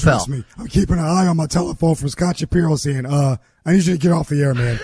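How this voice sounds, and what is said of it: Hoarse, strained voice. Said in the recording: “Is this laryngitis? ... I have to adjust to how your voice is sounding.”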